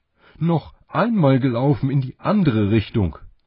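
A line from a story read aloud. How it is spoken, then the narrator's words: Calling out. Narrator (German): rief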